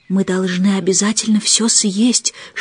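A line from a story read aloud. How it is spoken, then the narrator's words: Whisper. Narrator (Russian): шепнула Мэри Поппинс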